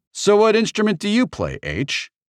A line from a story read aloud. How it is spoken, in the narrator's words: Shoto asked indignantly